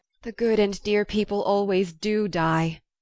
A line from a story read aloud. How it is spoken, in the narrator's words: groaned Joe